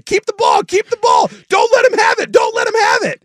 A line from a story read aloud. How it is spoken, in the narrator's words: just screaming and yelling about wanting the ball